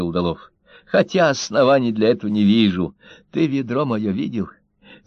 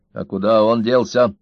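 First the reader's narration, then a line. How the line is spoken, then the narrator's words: Stern question. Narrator (Russian): строго спросил Карась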